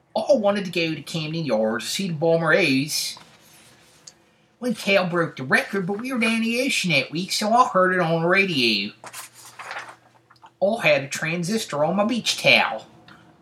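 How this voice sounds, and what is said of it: Baltimore accent, long O sounds. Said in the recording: “long O, as in down the ocean, hon ... they call that the Baltimore accent, but it's definitely not limited to Baltimore”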